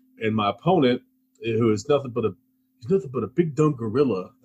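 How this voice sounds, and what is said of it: Poor imitation of another person's voice. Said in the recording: “my bad Muhammad Ali impression”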